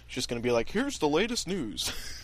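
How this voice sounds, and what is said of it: Mock newscaster voice. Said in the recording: “was that an impersonation? ... Of himself, yeah. ... That was my news impersonation”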